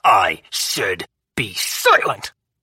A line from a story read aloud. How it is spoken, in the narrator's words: Auguste snarled